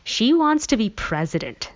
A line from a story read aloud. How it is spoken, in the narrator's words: Stevie scoffed